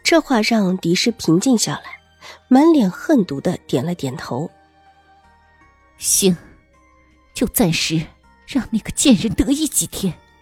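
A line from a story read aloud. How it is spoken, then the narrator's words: Lowered sinister voice. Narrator (Chinese): 周嬷嬷压低了声音，阴险的道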